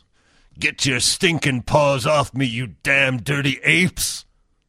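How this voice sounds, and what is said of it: Imitates another person's voice. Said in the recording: “my Charlton Heston impression”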